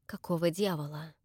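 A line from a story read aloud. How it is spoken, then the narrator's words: Silent mouthed whisper. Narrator (Russian): Одними губами шепнул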